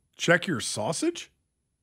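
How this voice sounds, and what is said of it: Imitates another person's voice. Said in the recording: “my go-to Dana impersonation”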